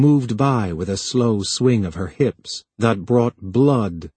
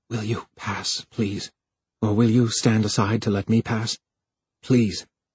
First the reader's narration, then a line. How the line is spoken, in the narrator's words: Harlan said in a desperate whisper